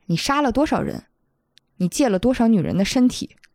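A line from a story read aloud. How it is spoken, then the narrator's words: Plain question. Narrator (Chinese): 于玄机去问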